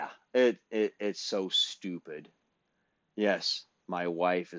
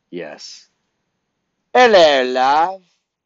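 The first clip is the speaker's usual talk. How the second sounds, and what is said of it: Fake English accent. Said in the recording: “I put on a goddamn fake English accent ... I got my feckin' English accent”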